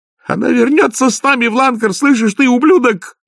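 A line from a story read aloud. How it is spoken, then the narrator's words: Shouting. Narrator (Russian): закричала Маград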